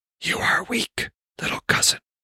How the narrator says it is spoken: came the whisper from his emerald-eyed Fulgia

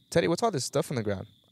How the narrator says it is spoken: I asked him

